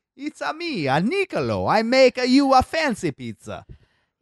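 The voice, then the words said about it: Bad put-on Italian accent. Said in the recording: “Italian? ... That accent could sound like ... shit. ... I don't know what that was.”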